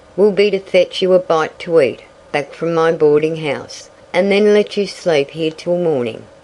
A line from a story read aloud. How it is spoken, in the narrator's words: growled the old station agent